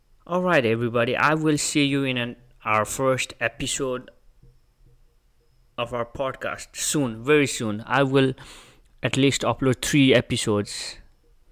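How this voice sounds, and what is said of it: Speaks with a foreign accent. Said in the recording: “You think where this accent is from.”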